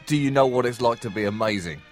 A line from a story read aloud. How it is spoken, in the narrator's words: he shouted it so many times